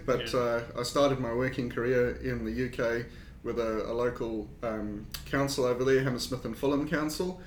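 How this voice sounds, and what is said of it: South African accent. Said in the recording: “obviously from my accent, I'm not from New Zealand. I've got a South African accent,”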